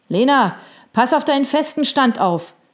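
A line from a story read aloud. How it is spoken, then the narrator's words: Calling from behind. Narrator (German): rief jemand schräg hinter ihr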